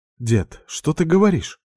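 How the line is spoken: Frightened babbling from behind. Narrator (Russian): испуганно пролепетала Тая за моей спиной

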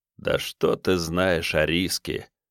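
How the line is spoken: Thoughtful drawl, raven. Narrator (Russian): протянул задумчиво ворон

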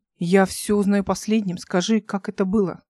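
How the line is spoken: Plain. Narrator (Russian): спросил

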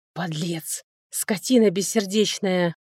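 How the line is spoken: Heated whisper in ear. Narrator (Russian): жарко шепнул он ей в ухо

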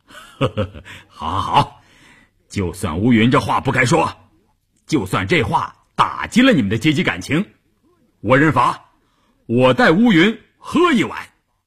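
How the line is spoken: Cheerful laughing. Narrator (Chinese): 关山林笑呵呵地说

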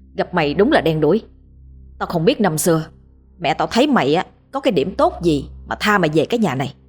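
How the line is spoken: Harsh, menacing voice. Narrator (Vietnamese): Dũng gằn giọng nói

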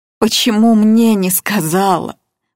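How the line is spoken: Old woman moaning. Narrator (Russian): простонала старуха

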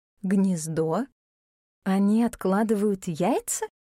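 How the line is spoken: Plain. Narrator (Russian): спросила леди Листера

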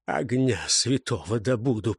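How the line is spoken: Hoarse rasp. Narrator (Russian): прохрипел лягуй

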